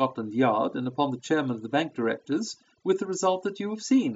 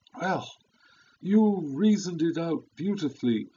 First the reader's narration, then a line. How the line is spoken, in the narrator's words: I exclaimed in unfeigned admiration